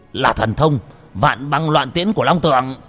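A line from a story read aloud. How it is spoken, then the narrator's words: Yell. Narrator (Vietnamese): Thành Dương gào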